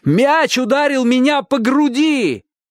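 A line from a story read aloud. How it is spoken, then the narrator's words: Shouted. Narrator (Russian): крикнул Чик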